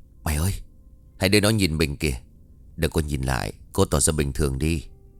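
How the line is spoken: Soft whisper. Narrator (Vietnamese): Thành lúc này liền khẽ nói

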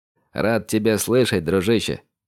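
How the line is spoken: Amused smiling snort. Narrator (Russian): хмыкнул Андрей, улыбаясь

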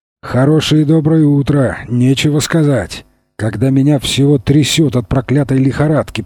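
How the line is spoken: Grumbling man. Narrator (Russian): проворчал он

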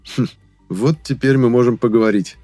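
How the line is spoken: Satisfied grunt. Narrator (Russian): удовлетворенно хмыкнул я

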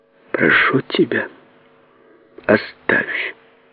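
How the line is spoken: Weak voice. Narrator (Russian): произнесла она слабым голосом

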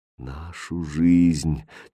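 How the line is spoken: Quiet repetition. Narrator (Russian): тихо повторил король

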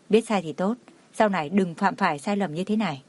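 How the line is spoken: Soft. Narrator (Vietnamese): Cảnh Liêm Uy khẽ nói

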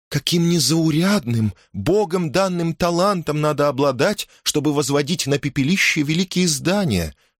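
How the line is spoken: Exclaimed. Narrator (Russian): воскликнула Элизабет Кромвель

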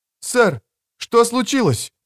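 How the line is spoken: Alarmed cry. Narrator (Russian): вскрикнула Элина

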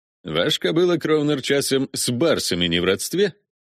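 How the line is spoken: Snort, suppressed irritation. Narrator (Russian): хмыкнул Виконт, отпихивая естественное для зимних блужданий раздражение

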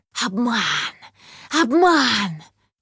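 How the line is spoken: Hissing. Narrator (Russian): Зашипели предельщицы

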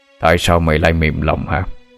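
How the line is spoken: Deep booming voice. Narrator (Vietnamese): một giọng nói ồm ồm cất lên

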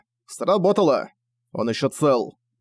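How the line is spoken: Curt, clipped speech. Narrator (Russian): отрывисто сказал Зориан

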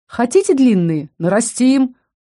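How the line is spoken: Cheerful mimicking voice. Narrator (Russian): бодро кивнул Фалькон, пародируя одного из помощников Альдера

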